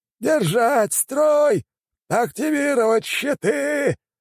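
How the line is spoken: Old man shouting. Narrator (Russian): прокричал старик

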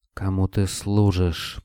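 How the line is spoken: Whispered. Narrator (Russian): прошептал Строев

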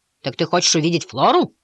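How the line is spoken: Servant boy's growl. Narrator (Russian): рыкнул бой

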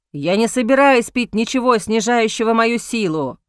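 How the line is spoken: Angry, curt. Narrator (Russian): зло отрезал Алик

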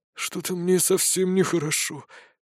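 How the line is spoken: Wheezing. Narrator (Russian): просипел компаньон

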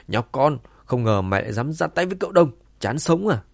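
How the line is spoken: Loud shout after shock. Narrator (Vietnamese): Sau giây phút ngơ ngác ngắn ngủi, tên đầu chọc hét lớn

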